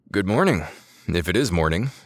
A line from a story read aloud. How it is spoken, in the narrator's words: Yadav mumbled